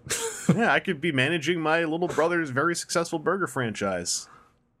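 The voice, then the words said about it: Imitates another person's voice. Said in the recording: “That's not a good Mark Wahlberg, by the way. That was a bad Mark Wahlberg impression.”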